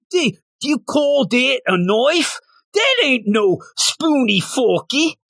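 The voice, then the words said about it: Put-on Australian accent. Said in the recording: “I think I do a better Australian accent than a actual British ... See, I do it pretty good.”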